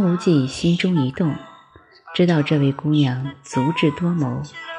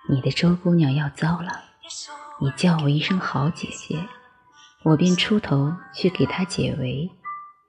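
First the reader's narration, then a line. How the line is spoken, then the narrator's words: Whispering into ear. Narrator (Chinese): 赵敏将嘴唇凑到张无忌耳边，低声说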